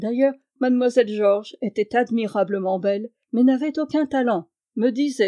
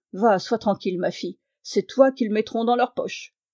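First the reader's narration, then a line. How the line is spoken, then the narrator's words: Muffled sinister murmur. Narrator (French): le méchant homme murmura sourdement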